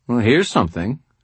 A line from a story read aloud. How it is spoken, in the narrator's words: she said in a dry tone